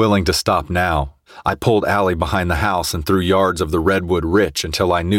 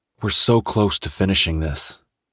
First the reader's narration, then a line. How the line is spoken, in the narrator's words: I whispered